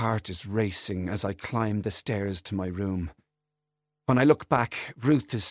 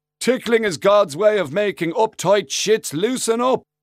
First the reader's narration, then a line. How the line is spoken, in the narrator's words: shouts after